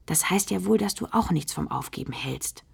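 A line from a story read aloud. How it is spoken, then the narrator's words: Whisper. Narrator (German): flüstert Loretta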